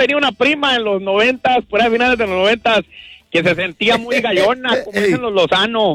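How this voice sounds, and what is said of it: Usual voice. Nothing is said of it.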